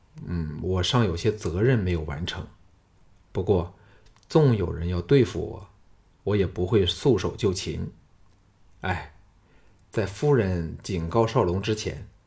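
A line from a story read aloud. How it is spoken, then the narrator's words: Shaken sigh. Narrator (Chinese): 项少龙犹有余悸的叹道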